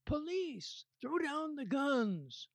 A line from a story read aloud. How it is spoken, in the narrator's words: yells